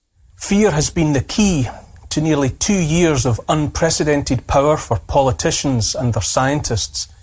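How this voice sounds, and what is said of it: Storyteller-like accent. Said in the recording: “I love his accent. Sounds like we're getting a story read to us.”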